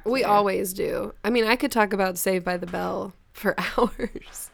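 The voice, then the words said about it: Sick, congested voice. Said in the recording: “I'm a little sick... my voice is driving you crazy... Your voice is sexy right now... like Phoebe on Friends when she gets... cold”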